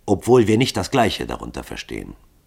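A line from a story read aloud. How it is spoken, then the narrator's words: Calm reply. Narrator (German): antwortete Hall ruhig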